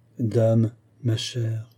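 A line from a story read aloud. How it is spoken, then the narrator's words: Gentle. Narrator (French): reprit doucement Pauline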